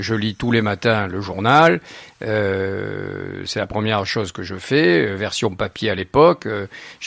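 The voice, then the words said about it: Southern French Narbonne accent. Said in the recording (French): “des gens qui s'étonnent d'entendre mon accent, malgré 40 ans passés à Paris... C'est mon accent, fini. C'est ma ville, c'est Narbonne.”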